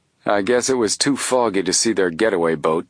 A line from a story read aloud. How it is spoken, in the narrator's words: the chief said gloomily